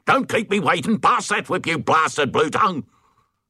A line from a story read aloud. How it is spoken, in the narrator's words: he yelled